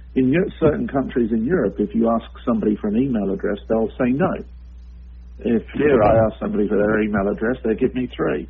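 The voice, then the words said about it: European accent. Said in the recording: “I've actually worked both in Europe, as you can probably tell by my accent”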